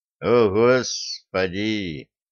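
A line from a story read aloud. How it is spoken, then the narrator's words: Inward groan. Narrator (Russian): мысленно простонал Денис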